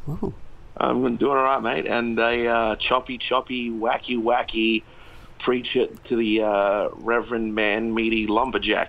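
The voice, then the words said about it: Australian accent. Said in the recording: “accent ... he's not from England. He's from Australia.”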